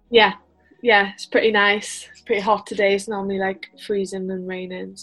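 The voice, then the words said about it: Noticeable Welsh accent. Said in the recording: “that accent is crazy”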